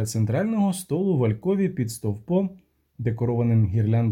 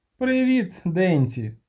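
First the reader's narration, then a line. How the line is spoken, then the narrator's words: Cheerful. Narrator (Ukrainian): сказав, весело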